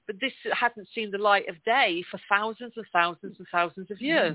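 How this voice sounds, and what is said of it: English accent. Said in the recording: “That's my English accent.”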